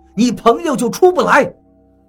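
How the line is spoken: Shouting. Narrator (Chinese): 老严喊道

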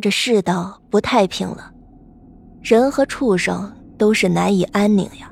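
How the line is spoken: Sighing. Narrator (Chinese): 忠良也叹了口气，说

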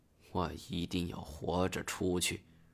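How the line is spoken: Murmuring. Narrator (Chinese): 喃喃地说道

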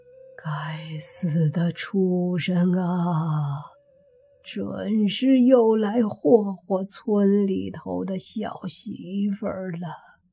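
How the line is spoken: Old man's sigh. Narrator (Chinese): 老大爷叹了口气，说道

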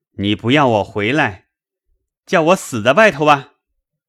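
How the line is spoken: Shouting. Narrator (Chinese): 贾琏嚷道

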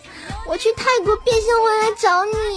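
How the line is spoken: Crying girl. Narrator (Chinese): 妹子哭了 说了一句

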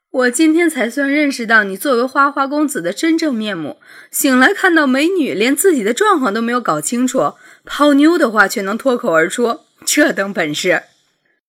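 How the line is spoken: Laughing to tears. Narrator (Chinese): 苏雨婷笑的眼泪都要飙出来了……说

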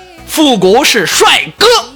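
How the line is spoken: Yelling. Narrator (Chinese): 我就对那螃蟹吼了一句

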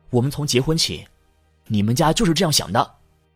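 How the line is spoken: Furious. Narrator (Chinese): 丈夫怒火中烧

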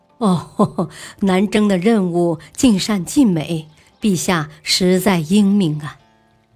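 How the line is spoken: Knowing smile. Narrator (Chinese): 拓跋成也会心的笑了

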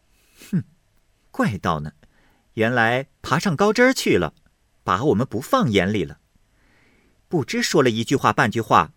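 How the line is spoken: Sneering. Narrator (Chinese): 晴雯冷笑道

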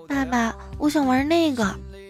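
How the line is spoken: Child speaking quietly. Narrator (Chinese): 一个小孩小声的对他爸说

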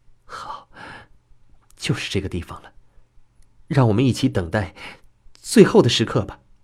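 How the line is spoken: Soft-spoken. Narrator (Chinese): 春雨 他轻声说

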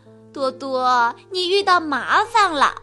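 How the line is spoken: Laughing. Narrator (Chinese): 刺猬笑着说

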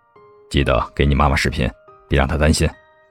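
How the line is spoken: Deep-voiced urging. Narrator (Chinese): 沉声叮嘱道

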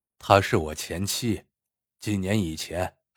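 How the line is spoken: Flat, indifferent. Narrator (Chinese): 男人淡淡的说道

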